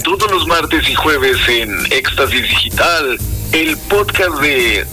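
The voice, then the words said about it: Radio announcer voice. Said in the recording (Spanish): “voz de locutor que le pones en los podcast ... échale feeling”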